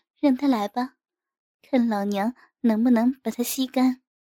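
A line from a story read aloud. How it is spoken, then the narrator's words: Laughing. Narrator (Chinese): 笑了笑说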